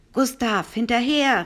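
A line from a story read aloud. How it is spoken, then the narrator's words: Nervous call. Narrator (German): rief der Professor nervös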